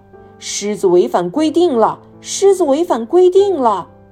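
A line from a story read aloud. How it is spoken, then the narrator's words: Calling out while walking. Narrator (Chinese): 他边走边叫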